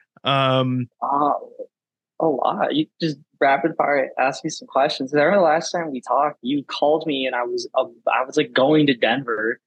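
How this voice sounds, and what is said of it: Raspy, slightly sick-sounding voice. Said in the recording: “Sound a little sick ... raspy voice ... That's my raspy voice.”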